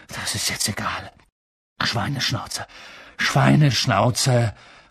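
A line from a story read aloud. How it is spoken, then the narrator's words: Panting. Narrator (German): keuchte Harry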